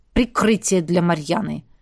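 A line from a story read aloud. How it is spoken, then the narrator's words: Indistinct grumble, dragon. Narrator (Russian): Как-то невнятно пробурчал дракон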